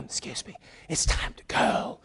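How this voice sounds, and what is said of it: Whispered aside. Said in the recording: “Not a whisper.”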